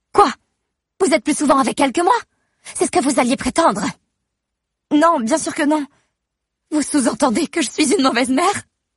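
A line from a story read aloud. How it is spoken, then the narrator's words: Shouting. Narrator (French): crie Amber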